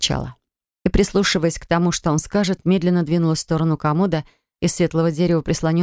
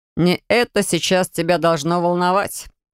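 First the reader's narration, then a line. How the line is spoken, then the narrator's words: Chuckle. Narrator (Russian): хохотнул он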